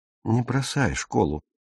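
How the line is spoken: Soft. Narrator (Russian): мягко сказал Пауль

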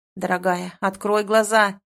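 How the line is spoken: Growl. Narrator (Russian): зарычал

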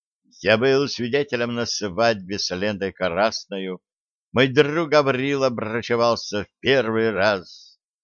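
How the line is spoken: Hoarse singer's voice, carrying. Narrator (Russian): Пронесся по пиршественному залу хриплый голос автора шансона

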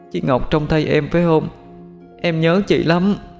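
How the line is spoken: Crying. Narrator (Vietnamese): Bảo liền khóc lóc mà nói

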